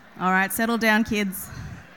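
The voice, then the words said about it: Stern teacher voice. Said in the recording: “teacher voice”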